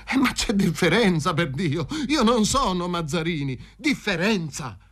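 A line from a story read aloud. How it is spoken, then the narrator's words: Exclaimed. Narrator (Italian): esclamò il Fazio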